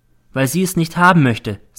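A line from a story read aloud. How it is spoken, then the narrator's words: Plain. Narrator (German): sagte sie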